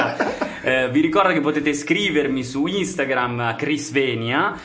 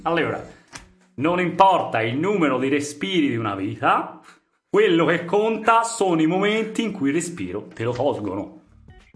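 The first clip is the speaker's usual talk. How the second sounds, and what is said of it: Put-on Tuscan accent. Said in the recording (Italian): “la rifò in toscano ... Sembra un po' Benigni ... un po' Pieraccioni anche ... questo è Benigni ... così in toscano”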